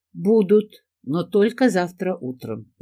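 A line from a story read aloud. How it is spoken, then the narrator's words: Laughing. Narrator (Russian): засмеялась я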